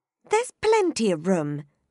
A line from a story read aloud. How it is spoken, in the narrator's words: she said indignantly